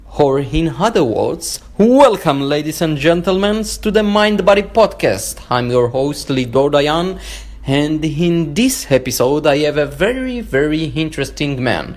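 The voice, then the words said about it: Jewish-accented English. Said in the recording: “with the sexy Jewish accent”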